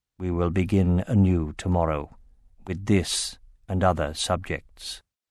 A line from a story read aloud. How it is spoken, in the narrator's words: In a low, distant voice, Oromis said